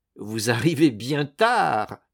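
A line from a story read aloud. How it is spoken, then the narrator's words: Sneering rebel. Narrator (French): ricana le révolté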